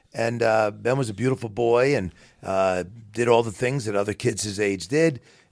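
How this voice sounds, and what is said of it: Heavy New York accent. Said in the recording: “his father had this heavy New York accent”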